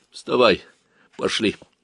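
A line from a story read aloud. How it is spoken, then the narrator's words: Tired. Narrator (Russian): сказал усталым голосом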